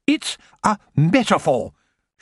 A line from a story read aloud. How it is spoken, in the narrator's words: she said sharply